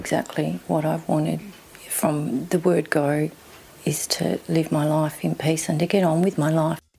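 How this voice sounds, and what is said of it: Strong Australian accent. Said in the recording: “She's got a wacky Australian accent”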